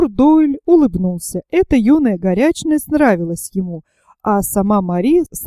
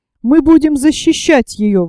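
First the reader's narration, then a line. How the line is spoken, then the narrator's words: Exclamation. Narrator (Russian): воскликнул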